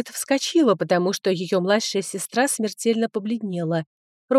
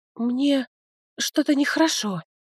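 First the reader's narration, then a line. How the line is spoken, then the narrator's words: Barely squeezed out, weak. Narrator (Russian): еле выдавила Лердес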